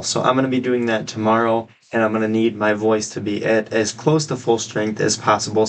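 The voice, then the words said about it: Scratchy, slightly hoarse voice. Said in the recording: “I kind of have a little bit of a cold. My throat's a little bit sore. ... My voice is a little scratchy and just a little bit hoarse.”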